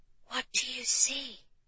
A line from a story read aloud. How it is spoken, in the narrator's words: Jane asked in a hushed whisper